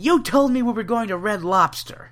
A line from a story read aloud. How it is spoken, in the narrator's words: Milhouse as he yells